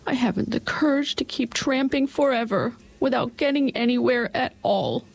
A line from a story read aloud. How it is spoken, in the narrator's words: said the Cowardly Lion in a whimper